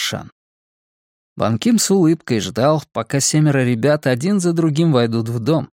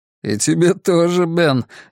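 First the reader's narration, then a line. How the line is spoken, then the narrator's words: Laughing. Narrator (Russian): рассмеялся Бан Ким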